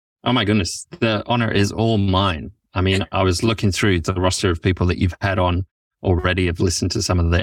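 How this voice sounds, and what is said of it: English or Welsh accent. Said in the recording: “He has an English accent. ... or is it a Welsh accent?”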